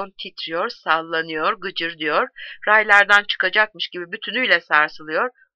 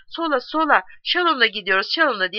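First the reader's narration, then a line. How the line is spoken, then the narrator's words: Group shouting. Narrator (Turkish): diye haykırıyorlar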